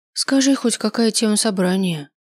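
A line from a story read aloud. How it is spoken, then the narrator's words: Sigh. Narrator (Russian): вздохнула я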